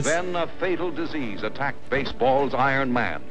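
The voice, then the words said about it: Old man announcer voice. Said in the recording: “this old man announcer voice.”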